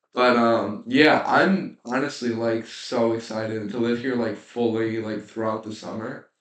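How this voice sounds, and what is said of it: Sick, rough-sounding voice. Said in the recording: “I'm kind of dealing with like some sickness right now, so if I sound like a mess, it's kind of because I am.”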